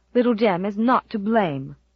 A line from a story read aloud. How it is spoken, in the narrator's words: snapped Susan